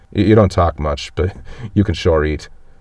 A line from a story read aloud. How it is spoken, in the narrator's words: says with a laugh